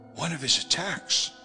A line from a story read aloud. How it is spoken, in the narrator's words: I whispered to Maud